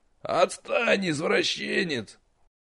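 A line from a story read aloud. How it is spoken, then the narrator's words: Strangled groan. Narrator (Russian): Сдавленно простонал нич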